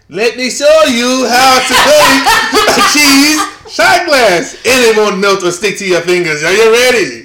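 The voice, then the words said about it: Put-on accent. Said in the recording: “You have to put the accent in there.”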